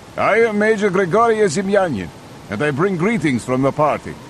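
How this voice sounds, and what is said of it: Heavy Russian accent. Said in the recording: “The accent was heavy ... bowed slightly to the Russian”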